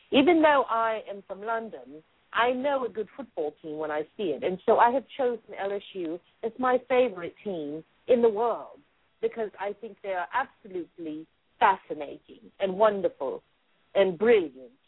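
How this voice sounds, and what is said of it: Pretty good put-on British accent. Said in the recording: “Even the clapping is in a British accent. ... that was pretty good. ... you're getting the hang of this now”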